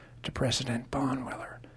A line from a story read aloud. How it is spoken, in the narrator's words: said softly